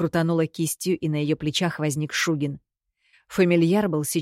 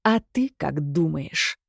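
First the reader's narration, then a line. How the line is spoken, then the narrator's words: Hiss. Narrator (Russian): прошипел он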